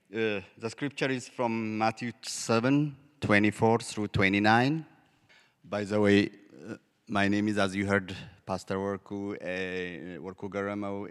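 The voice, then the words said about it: Ethiopian-accented English. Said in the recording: “a very special mic that interprets my accent ... I am originally from Ethiopia”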